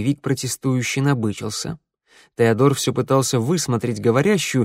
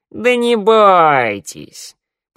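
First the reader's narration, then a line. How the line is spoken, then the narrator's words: Lazy drawl. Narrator (Russian): протянула она лениво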